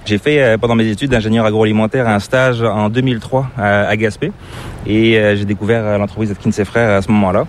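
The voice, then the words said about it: Slight accent, not Québécois. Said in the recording (French): “tu as une petite pointe d'accent qui est assez difficile de deviner... c'est pas l'accent québécois”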